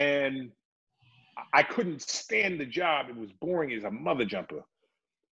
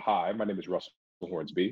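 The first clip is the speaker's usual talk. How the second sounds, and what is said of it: Deep, resonant, profound-sounding voice. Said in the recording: “talk with a standard English tone ... try to sound all profound and deep and resonant and whatnot”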